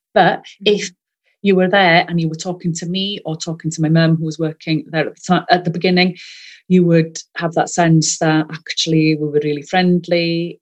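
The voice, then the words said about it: Welsh accent. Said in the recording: “I'm first language Welsh, you may be able to tell from my accent”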